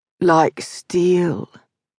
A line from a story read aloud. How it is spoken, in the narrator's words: she purred against his neck